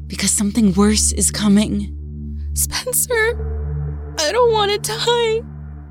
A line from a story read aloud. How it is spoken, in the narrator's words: Clarissa sobbed